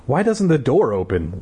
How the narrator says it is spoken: Libby asked in a trembling voice

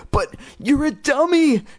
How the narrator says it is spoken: she squealed

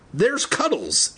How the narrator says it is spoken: Andy cried

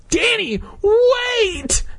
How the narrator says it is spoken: Hannah cried

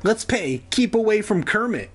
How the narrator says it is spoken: she cried

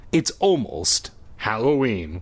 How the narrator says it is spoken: he said firmly

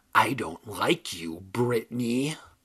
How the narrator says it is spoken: The ugly dummy uttered in a hoarse whisper

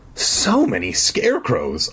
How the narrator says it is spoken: I exclaimed

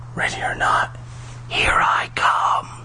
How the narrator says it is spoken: I whispered

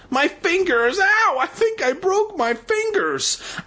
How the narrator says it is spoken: With a howl of pain, she shrieked

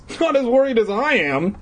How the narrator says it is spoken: Eddie exclaimed like a little bitch

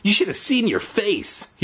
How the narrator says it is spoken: he cried

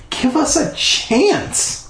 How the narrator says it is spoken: I cried

